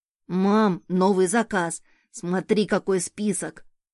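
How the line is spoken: Child exclaiming excitedly. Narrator (Russian): воскликнул сын

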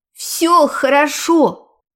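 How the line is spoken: Shout. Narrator (Russian): крикнула я

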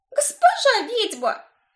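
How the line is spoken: Frightened girl exclaiming. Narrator (Russian): воскликнула девушка с круглыми от страха глазами

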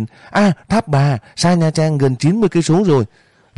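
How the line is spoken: Sudden shout. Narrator (Vietnamese): chợt phát hiện la lên

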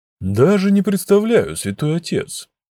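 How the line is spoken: Thoughtful. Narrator (Russian): задумчиво ответил волшебник

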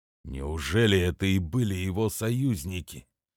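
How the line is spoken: Quiet question. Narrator (Russian): тихо спросил первый

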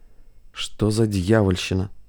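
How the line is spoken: Muttering. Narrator (Russian): пробормотал Хейно Янович

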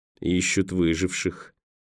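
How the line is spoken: Gloomy. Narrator (Russian): мрачно проговорил Николас

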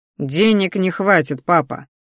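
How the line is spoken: Snorting again. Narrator (Russian): вновь хмыкнул я

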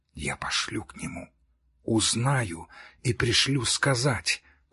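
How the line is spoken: Whisper. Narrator (Russian): прошептала Бетси

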